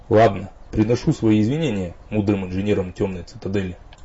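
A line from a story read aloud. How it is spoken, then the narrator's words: Grudging grumble. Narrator (Russian): наконец пробурчал он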